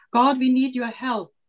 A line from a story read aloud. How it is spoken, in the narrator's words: they both cried